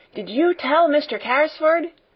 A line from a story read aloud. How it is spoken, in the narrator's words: Donald shouted again